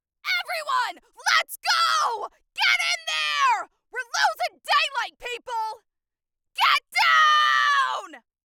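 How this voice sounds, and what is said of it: Shouting loudly. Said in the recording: “I'm about to shout, so I just want you to be prepared.”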